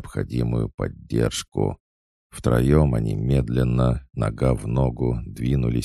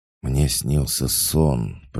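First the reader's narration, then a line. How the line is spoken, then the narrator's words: Hoarse rasp. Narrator (Russian): прохрипела падающая звезда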